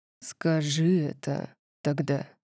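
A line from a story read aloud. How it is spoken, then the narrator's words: Muttering. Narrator (Russian): пробормотал он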